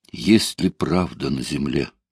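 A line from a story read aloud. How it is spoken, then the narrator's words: Whisper. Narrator (Russian): Илья прошептал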